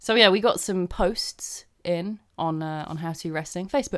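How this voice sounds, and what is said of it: Usual voice. Nothing is said of it.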